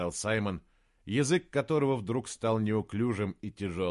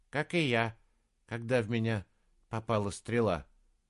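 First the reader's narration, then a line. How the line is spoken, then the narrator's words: Troll speaking plainly. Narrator (Russian): сказал тролль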